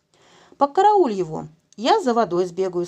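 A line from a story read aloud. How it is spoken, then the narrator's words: Plain. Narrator (Russian): сказал я Семке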